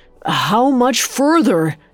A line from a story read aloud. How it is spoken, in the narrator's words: he pleaded